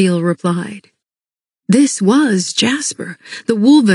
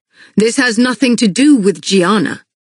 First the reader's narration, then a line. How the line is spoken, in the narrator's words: Castile replied curtly